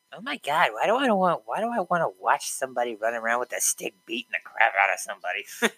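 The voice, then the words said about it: Exasperated old person character voice. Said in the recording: “that impression? ... somebody that doesn't like hockey ... that's the sound of a person who doesn't like hockey ... old old person or something”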